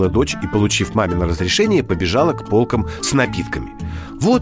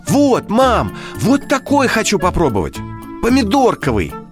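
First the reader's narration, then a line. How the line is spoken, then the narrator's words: Joyful exclamation. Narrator (Russian): радостно воскликнула Кристина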